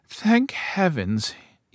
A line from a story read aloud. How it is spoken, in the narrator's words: he sighed